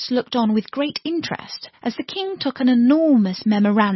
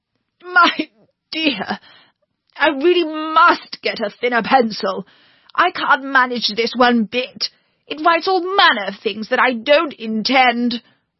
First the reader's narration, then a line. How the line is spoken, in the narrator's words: he panted out